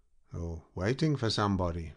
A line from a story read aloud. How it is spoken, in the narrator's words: added Bolt in a grim tone